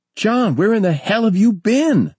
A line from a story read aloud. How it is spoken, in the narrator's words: Maury asked excitedly